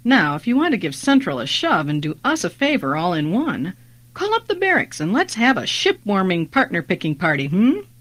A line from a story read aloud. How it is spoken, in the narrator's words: Helva chuckled to herself